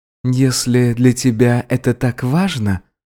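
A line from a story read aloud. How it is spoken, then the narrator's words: Quiet. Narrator (Russian): сказал тихо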